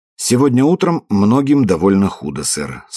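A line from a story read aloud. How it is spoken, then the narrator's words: Calm tone. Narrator (Russian): спокойным тоном сказал он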